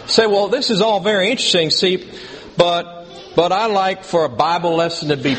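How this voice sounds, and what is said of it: Put-on southern accent. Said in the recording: “why do I always adopt a southern accent when I have an opponent or a scoffer? ... But I'm going to do it anyway.”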